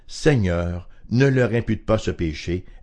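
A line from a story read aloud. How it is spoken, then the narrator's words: Loud cry. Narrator (French): il s'écria d'une voix forte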